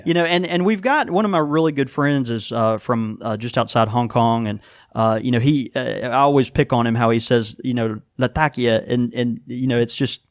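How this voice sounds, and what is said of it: Southern American drawl. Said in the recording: “I'm butchering it in my southern drawl”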